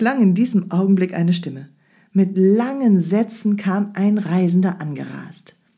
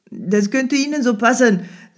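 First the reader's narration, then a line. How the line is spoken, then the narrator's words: Carefree laughing reporter. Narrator (German): lachte der Reporter unbekümmert zurück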